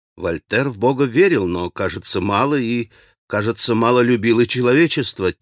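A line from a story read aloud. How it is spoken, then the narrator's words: Quiet, restrained, natural. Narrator (Russian): тихо, сдержанно и совершенно натурально произнес Алеша, как бы разговаривая с себе равным по летам или даже со старшим летами человеком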